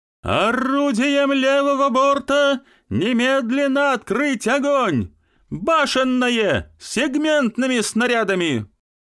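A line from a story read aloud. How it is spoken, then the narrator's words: Loud shout. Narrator (Russian): Смирнов громко крикнул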